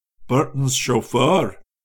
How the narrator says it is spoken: he muttered

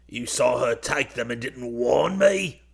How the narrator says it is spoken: Perkins croaked

